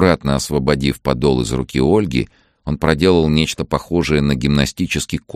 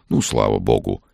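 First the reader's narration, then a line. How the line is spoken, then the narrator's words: Priest's sincere sigh. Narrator (Russian): искренне вздохнул священник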